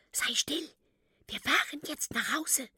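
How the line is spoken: Whisper. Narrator (German): flüstert

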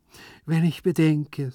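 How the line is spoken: Sighing. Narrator (German): seufzte er

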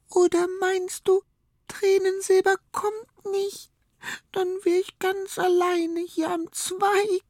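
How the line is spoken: Sobbing. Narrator (German): schluchzt Weingold

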